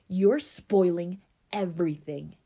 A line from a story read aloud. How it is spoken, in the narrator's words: Keisha snarled